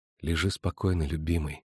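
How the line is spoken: Soft, tender. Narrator (Russian): мягко сказала Йеннифер

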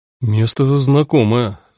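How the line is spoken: Bewildered. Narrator (Russian): растерянно говорил Зоран

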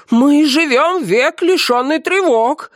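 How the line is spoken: Excited shouting in unison. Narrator (Russian): взволнованно закричали в один голос остальные

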